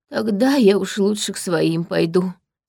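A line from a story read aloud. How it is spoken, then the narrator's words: Heavy sigh. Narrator (Russian): тяжело вздохнул странник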